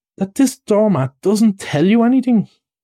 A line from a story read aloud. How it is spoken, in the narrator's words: cried the excited rat